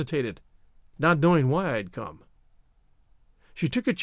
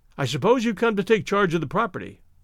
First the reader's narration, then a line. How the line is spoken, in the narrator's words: I blurted